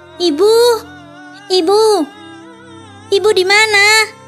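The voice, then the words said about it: Shouting. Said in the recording (Indonesian): “Teriak”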